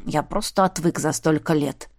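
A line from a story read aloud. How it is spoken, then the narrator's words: Grumbled. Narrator (Russian): буркнул он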